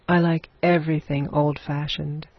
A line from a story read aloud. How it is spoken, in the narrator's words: said Eleanor